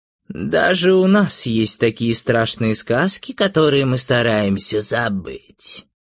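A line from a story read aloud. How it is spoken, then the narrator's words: Creaky witch voice. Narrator (Russian): скрипучим голосом сказала ведьма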